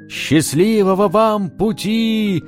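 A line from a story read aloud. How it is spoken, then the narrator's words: Group shouting. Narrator (Russian): крикнули им провожатые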